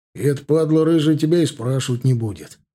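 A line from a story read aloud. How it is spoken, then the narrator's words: Cheerful sigh, suppressing laughter. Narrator (Russian): весело вздохнул Малюга, стараясь унять смех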